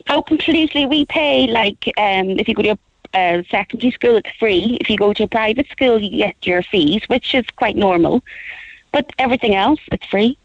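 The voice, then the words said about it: Belfast Northern Irish accent. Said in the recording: “you can tell by my accent, I come from Belfast”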